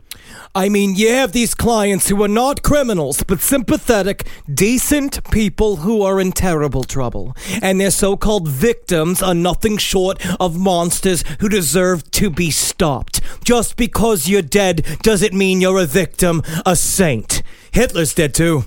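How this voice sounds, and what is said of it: Imitates another person's voice. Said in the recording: “good Joan Rivers impression”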